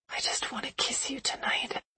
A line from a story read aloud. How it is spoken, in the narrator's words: I whispered